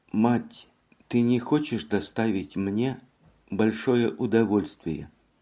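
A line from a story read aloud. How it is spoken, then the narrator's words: Sudden whisper. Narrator (Russian): Неожиданно прошептала Женевьева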